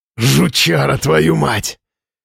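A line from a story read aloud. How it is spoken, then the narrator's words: Hoarse speech. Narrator (Russian): Тимуров говорил с хрипом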